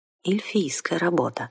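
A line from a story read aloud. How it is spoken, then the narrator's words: Quiet, piercing in silence. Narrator (Russian): тихо сказал Ролар, но в царившей вокруг тишине даже шепот казался режущим уши криком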